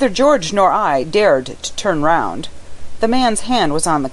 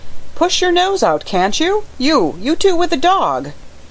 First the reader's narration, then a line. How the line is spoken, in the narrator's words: another voice cried